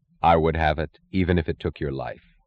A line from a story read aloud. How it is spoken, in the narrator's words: he said very quietly